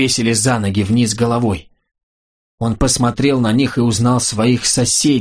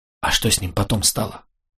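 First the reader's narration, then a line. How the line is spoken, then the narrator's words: Whispered question. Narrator (Russian): шепотом спросила Йока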